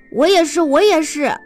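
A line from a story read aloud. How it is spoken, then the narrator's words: Animals crying out together. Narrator (Chinese): 其他动物一起叫道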